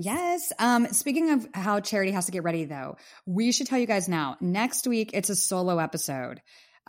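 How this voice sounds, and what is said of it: Hoarse, losing voice. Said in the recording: “I'm losing my voice ... a little bit of kind of laryngitis going on ... I may be coughing and losing my voice”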